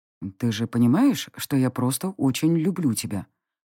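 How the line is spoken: Whisper in the ear. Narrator (Russian): шепнул мне на ухо оборотень

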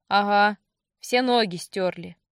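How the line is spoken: Gloomy reply, grizzled sergeant. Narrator (Russian): Мрачно отозвался седоусый сержант

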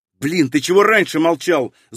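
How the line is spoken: Angry. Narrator (Russian): зло отреагировал я

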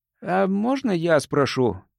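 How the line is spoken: Uncertain. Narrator (Russian): неуверенно проговорил Джимми

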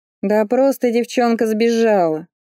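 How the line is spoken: Angry snort. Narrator (Russian): Рэйчел зло фыркнула

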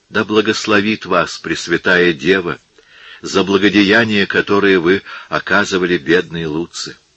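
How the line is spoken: Old woman's faint whisper. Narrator (Russian): Старушка едва внятно шептала

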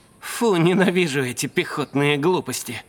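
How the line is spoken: Grumbling. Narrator (Russian): проворчал Сойер

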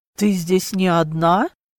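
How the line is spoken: Strained, barely controlled voice. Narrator (Russian): уточнил, с трудом владея собственным голосом

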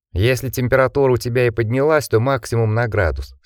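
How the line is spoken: Calm objection. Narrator (Russian): спокойно возразил Джек

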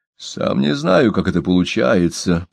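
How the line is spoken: Muttering. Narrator (Russian): пробормотал он

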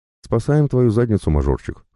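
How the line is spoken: Father's wry snort. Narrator (Russian): хмыкнул папа

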